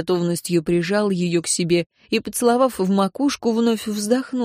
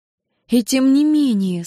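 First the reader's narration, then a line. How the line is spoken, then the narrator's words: Said softly. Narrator (Russian): сказала София мягко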